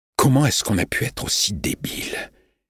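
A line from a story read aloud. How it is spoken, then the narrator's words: Murmured. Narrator (French): murmura-t-il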